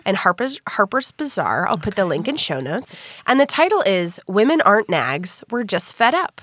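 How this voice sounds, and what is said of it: Sick-sounding, slightly altered voice. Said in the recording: “I've made sure to stay sick so that you all can listen to it with maximum voice capacity ... We've recorded several episodes while I'm sick, so maybe this is just how my voice sounds now ... now your voice is a little bit different”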